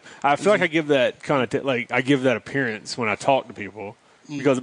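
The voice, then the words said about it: Mild Southern North Carolina accent. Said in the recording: “You can tell I got a North Carolina accent or that little Southern accent, but it's not like, hey y'all.”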